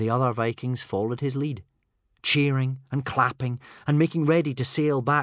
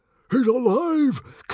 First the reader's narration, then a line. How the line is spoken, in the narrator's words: cried Stoic the Vast